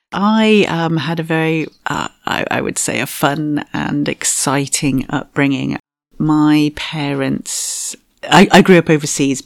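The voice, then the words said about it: Non-Australian accent. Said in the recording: “your accent isn't an Australian accent.”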